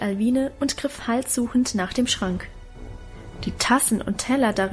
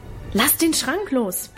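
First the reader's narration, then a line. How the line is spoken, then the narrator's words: Yelling. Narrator (German): brüllte er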